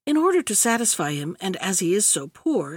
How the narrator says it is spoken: said the princess

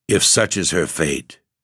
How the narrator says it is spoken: The white man uneasily muttered in a hesitating manner

